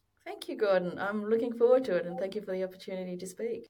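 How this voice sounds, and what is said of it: Australian accent. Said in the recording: “sounds like an Australian accent.”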